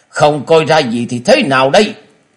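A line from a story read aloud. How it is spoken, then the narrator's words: Angry snort. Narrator (Vietnamese): Tứ độc thư sinh trên mặt tất cả đều biến sắc, tức giận hừ lên một tiếng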